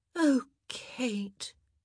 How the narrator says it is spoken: Edwina said with a pitying sigh

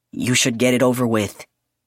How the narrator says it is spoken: he said

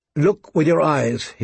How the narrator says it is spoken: he had said

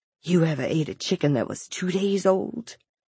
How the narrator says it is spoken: on what seemed an insuck of breath, he whispered

